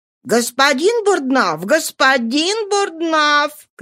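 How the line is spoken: Frightened shouting. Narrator (Russian): кричал испуганный режиссер

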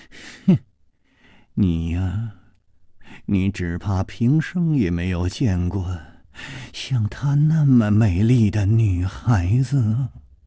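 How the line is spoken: Excited laughter. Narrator (Chinese): 他的目光之中充满了兴奋的神色，竟忍不住笑出声来

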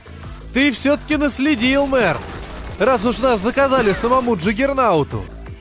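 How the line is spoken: Shouted over gunfire. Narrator (Russian): Перекрывая грохот пулемета, прокричал я

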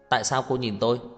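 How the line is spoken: Angry. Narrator (Vietnamese): tức giận

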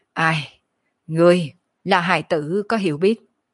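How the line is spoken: Calm leisurely sigh. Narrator (Vietnamese): Kiếp nạn thần hồn ung dung thở dài

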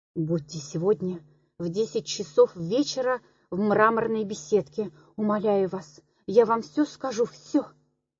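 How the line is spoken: Whispered. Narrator (Russian): Прошептала

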